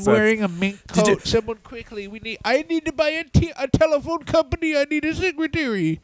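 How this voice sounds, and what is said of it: Imitates another person's voice. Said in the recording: “my Jim Crockett impression.”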